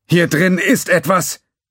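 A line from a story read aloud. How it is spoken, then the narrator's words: Man calling out. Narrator (German): rief die Stimme des Mannes, der den Schuss abgegeben hatte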